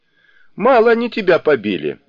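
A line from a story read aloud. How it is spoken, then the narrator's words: Laughing. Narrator (Russian): рассмеялся Сунь-Укун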